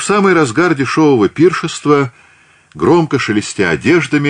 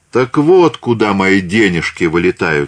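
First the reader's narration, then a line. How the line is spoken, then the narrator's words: Plain. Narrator (Russian): сказала Екатерина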